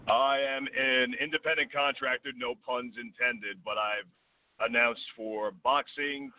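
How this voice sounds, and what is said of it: Usual voice. Nothing is said of it.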